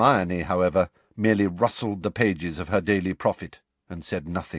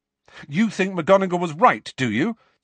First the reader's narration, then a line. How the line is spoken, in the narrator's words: said Harry angrily